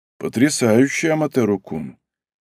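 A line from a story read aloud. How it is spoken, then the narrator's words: Calm. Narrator (Russian): произнес Баку спокойным тоном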